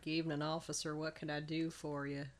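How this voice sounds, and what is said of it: Put-on Texas accent. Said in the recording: “the one German who can put on, like, a Texas accent”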